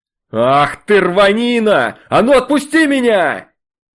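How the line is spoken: Yelling, satan. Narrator (Russian): Это орал сатана

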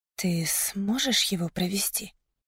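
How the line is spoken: Surprised whisper. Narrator (Russian): спросила я удивленным шепотом

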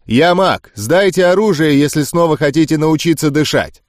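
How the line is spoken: Loud stocky man. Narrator (Russian): Хельк, один из мужчин в пончо, сбитый коротышка со шрамом на щеке, громко произнес

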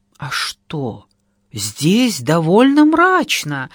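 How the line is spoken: Joyful exclamation. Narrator (Russian): радостно воскликнула покупательница

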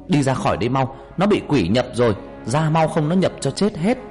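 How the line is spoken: Loud shout. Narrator (Vietnamese): ông thầy hét lớn

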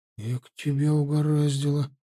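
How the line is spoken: Sympathetic mutter. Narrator (Russian): Сочувственно пробормотал Славка

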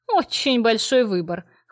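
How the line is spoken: Snorting remark. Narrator (Russian): хмыкнула я

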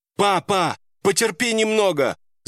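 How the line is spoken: Shouting with all her strength. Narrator (Russian): Закричала она изо всех сил

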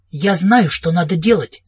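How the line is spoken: Plain. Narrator (Russian): сказала Кэрри

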